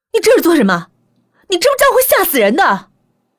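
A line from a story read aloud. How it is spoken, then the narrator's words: Angry shout. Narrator (Chinese): 我朝他吼道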